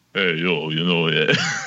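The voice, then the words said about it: Sylvester Stallone impression. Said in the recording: “do an impression ... you got Stallone. You gotta get the lip up”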